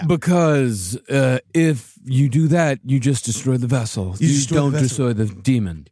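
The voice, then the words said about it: Bad impression of Patrick Wilson's Ed Warren. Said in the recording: “You're doing Patrick Wilson doing Ed Warren. ... it's the stupid accent. ... It's a bad accent.”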